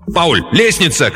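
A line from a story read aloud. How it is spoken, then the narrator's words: Sudden instinctive shout. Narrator (Russian): крикнул Рэнс раньше, чем сам осознал, что что-то заметил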